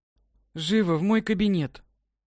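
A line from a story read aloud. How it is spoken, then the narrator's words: Calm tone. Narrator (Russian): Наконец-то спокойным тоном сказала директриса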